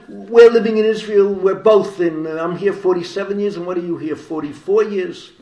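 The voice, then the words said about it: Bronx accent. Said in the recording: “I speak three languages fluently, all with a Bronx accent.”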